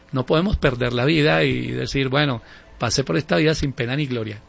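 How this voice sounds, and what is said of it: Smooth radio announcer-style voice. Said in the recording (Spanish): “habla sabroso ... Parece que tuviera emisora ... Voz de locutor y director de radio ... es una voz de puro director de radio”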